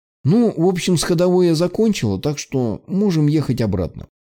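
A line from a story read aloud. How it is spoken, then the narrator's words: Cheerful. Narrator (Russian): бодро произнесла Ника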